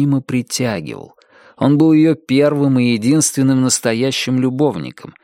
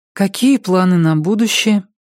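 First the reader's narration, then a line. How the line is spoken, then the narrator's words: Timid question. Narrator (Russian): робко спросила Сара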